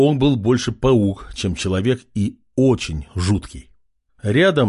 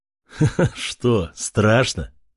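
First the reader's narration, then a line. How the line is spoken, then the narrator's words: Laughing. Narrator (Russian): рассмеялся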